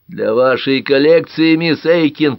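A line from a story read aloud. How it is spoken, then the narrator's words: Booming drone. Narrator (Russian): прогудел Тальбот Фокс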